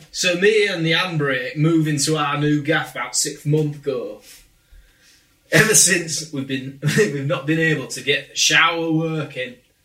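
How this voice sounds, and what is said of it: Put-on chavvy Grimsby accent. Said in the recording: “make me sound like as chavvy as you like ... I have no idea if this is a Grimsby accent ... That sounds like a Grimsby accent to me”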